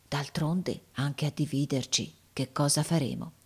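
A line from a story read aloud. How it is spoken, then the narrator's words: Said quietly. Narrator (Italian): lui disse piano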